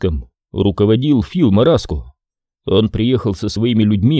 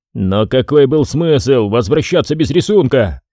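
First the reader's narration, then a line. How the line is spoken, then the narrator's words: Exasperated exclamation. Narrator (Russian): в сердцах воскликнул Ди Джорджи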